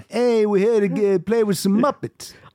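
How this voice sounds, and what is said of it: Thick New York accent. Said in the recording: “his New York accent was that thick”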